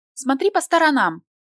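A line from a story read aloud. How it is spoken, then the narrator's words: Unfriendly squeak. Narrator (Russian): совсем недоброжелательно пискнула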